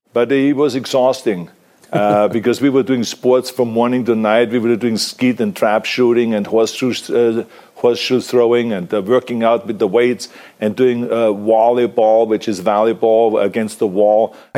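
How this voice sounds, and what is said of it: Austrian accent. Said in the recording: “For a man of an Austrian accent, that is a hard phrase to say”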